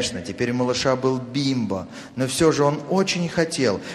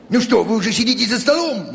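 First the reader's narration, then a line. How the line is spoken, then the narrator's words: Exclamation. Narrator (Russian): воскликнул он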